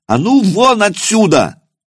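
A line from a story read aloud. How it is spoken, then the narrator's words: Monk's battle yell. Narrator (Russian): в бой завопив, монах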